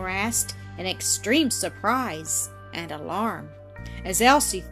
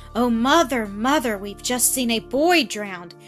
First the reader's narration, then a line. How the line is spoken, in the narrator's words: cried Annis, burying her face in her mother's lap